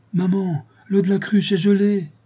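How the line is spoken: Shouting. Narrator (French): cria Félix

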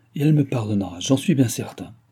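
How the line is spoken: Firm reply. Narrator (French): répondit d'une voix ferme le gouverneur

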